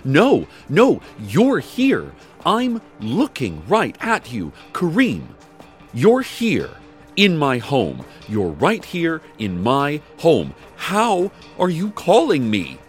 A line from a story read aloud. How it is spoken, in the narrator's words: she only screamed into the phone saying